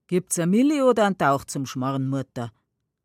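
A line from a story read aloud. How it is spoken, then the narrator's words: Calm, casual question. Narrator (German): ruhig, als wär nichts gewesen, fragt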